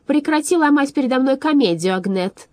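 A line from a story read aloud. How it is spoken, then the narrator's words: Shout. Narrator (Russian): выкрикнула она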